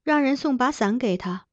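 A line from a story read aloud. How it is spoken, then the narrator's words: Soft instruction. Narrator (Chinese): 她轻声吩咐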